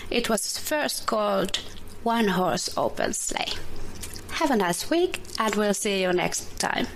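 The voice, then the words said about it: Finnish accent in English. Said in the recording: “from Finland. She's just learning English on her own ... I love her accent.”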